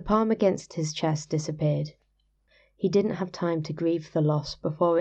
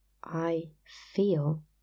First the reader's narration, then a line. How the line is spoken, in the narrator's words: he said, slowly and clearly